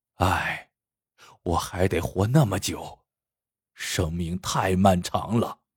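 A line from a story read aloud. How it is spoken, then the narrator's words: Sighing. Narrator (Chinese): 麻田叹了口气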